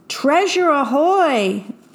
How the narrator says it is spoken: Jack and his shipmates all gasped in delight

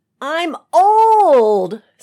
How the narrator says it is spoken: screech, farcical, if still utterly real

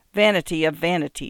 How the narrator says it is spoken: she said

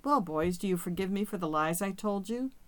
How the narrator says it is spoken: I laughed

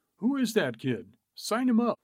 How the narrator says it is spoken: Peckinpah exclaimed

